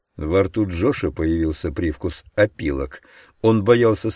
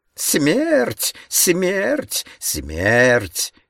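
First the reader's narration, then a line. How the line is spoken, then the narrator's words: Male shrieking. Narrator (Russian): визжал он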